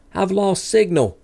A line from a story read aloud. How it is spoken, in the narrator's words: Medeiros yelled